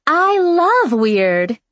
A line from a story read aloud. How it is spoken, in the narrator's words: exclaimed